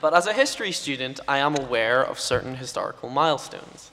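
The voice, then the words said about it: British accent. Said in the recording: “a British person with a funny accent”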